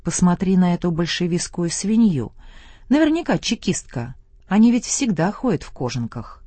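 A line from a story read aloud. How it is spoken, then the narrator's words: Loud, village woman. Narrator (Russian): одна баба произнесла громко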